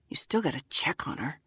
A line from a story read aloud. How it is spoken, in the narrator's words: mutter